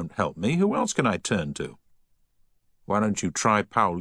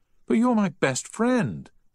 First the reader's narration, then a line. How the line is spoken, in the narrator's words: pleaded Giles